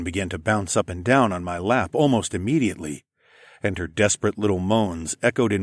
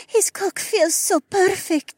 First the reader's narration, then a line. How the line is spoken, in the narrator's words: Adhara whimpered